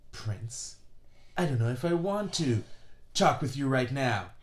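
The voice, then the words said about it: Impression of Princess Jasmine. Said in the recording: “No, I don't think that's a good impression. ... No, that's a good impression. That's a good impression.”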